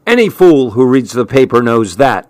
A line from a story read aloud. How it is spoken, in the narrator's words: he replied harshly